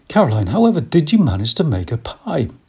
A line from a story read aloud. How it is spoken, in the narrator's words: Pa exclaimed